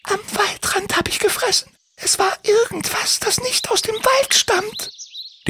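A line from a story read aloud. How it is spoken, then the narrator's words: Whisper. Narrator (German): flüsterte sie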